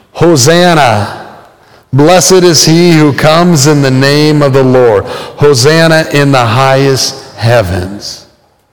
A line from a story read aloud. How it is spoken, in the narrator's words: Or will you be shouting